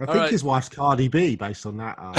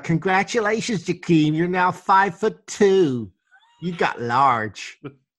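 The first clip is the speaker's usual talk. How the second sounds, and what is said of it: Put-on Southern Hispanic accent. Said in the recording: “based on that accent that you just displayed ... It was like a mix of Cardi B and Mrs. Stevie. ... That was Southern Hispanic, I think.”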